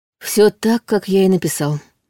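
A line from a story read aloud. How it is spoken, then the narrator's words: Muffled reply. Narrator (Russian): глухо отозвался герцог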